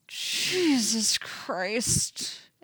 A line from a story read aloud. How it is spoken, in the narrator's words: Eddie moans